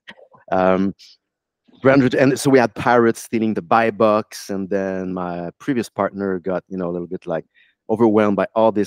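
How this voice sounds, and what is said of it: French Canadian accent. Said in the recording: “I have a French accent, by the way. I'm from Montreal.”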